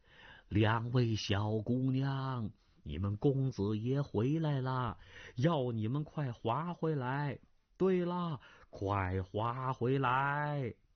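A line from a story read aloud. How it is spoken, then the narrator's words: Kindly, slow voice. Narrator (Chinese): 鸠摩智和蔼的声音缓缓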